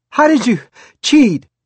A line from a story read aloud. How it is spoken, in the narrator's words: gasped